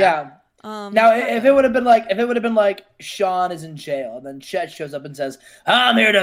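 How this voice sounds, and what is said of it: Usual voice. Nothing is said of it.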